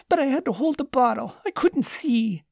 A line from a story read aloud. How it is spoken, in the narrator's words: whined Lucas